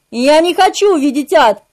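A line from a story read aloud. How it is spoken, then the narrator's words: Shouting again. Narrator (Russian): вновь прокричал я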